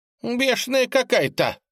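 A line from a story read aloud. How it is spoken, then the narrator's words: Woman yelling. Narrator (Russian): завопила тетка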